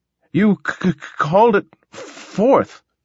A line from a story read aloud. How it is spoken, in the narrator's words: gasped the little man